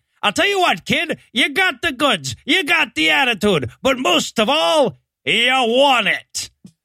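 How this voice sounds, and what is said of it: Old-timey Hollywood producer accent. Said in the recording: “I'm doing it with the accent. ... an old-timey Hollywood producer”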